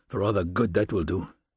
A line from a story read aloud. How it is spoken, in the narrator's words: The young man muttered under his breath